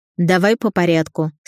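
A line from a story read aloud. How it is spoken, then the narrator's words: Stern, clipped, curious. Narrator (Russian): строго отчеканила Кучерова, но я слышала любопытство в ее голосе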